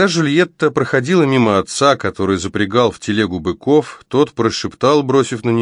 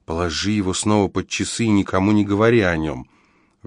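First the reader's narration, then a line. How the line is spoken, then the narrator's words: Embarrassed soft whisper. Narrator (Russian): покраснела и тихо шепнула Клотильде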